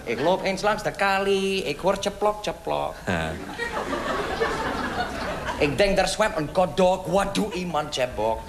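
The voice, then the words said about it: Put-on Yiddish accent in Dutch. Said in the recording (Dutch): “Ik zal met mijn accent praten, ja? ... ik praat met mijn accent ... Oh, je bent Jiddisch.”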